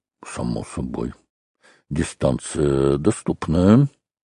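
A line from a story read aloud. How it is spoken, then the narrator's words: Muttering. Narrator (Russian): Шереметьев бормотал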